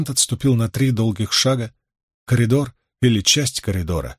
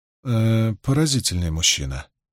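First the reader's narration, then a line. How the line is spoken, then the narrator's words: Quiet. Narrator (Russian): негромко произнесла Магеддин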